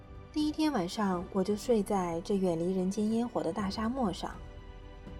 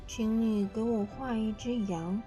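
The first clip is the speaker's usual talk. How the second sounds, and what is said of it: Small, quiet little voice. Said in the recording (Chinese): “一个奇怪的小声音叫醒我的时候……这小小的声音说道”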